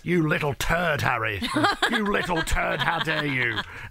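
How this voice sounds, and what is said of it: Very proper accent. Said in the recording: “in a very proper accent”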